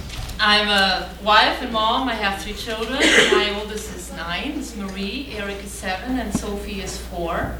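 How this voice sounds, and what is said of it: German accent. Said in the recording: “the accent you hear is German. I'm German, but born and raised in Spain”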